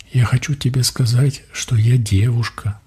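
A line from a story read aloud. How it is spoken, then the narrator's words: Whisper. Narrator (Russian): прошептала Донь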